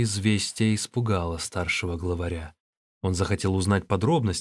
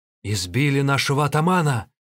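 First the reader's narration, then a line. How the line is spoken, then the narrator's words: Robbers shouting together. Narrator (Russian): закричали разбойники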